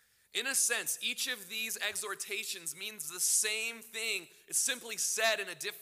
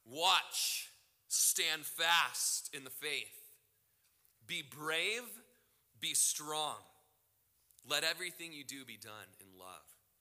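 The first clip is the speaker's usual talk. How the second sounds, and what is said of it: Impression of pastor Ken Graves. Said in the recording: “he's got this voice like this. And he calls you to be a man. That's how he talks. I'm not, like, exaggerating ... These verses are best read in a Ken Graves voice.”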